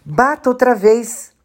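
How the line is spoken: Defiant shout. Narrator (Portuguese): Eu a desafiei e respondi gritando

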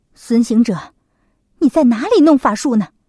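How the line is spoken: Nervous, hurried question. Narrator (Chinese): 罗刹女有些紧张，她急忙问道

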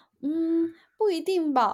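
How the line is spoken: Laughing. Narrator (Chinese): 笑着我说

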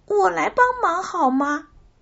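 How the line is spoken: Old woman calling out. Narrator (Chinese): 花头金奶奶 … 叫道

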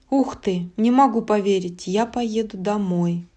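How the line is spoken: Whisper. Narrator (Russian): прошептала Ванилопа

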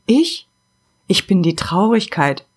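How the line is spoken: Halting, barely audible whisper. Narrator (German): flüsterte die Stimme stockend und so leise, dass sie kaum zu hören war

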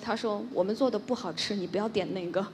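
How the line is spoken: Lowered voice. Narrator (Chinese): 他就压低了声音跟我说

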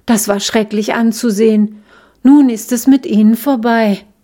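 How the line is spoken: Sighing little daisy. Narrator (German): seufzte die kleine Gänseblume

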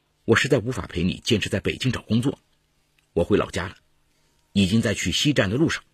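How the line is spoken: Cold. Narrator (Chinese): 小武冷冷地说

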